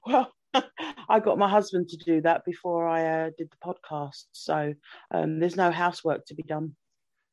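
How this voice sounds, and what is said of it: English accent. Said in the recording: “You're from England, right? ... Does the accent get away?”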